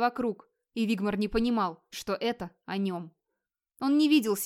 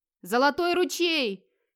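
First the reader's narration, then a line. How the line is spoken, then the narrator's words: Hoarse wild battle shout. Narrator (Russian): хрипло и дико закричал Вигмар, всем существом стремясь скорее добить оставшихся врагов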